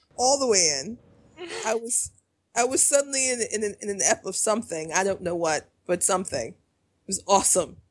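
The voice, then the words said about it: American Chicago accent, slightly Southern vowels. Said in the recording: “your accent probably sounds like that to Kaylee... Very American, yeah... I have a Chicago accent... There's a couple of vowels you say that are like Southern flavored a little bit.”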